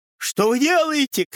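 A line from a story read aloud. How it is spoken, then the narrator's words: Group shouting. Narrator (Russian): кричали калошники-галошники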